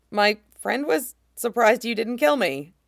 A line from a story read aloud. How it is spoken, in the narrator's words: Cal added with a dry laugh